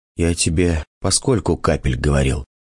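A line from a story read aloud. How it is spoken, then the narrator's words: Choked voice. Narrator (Russian): задушенным голосом заговорил я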